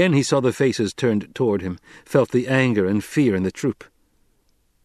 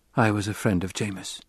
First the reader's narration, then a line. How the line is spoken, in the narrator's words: Paul whispered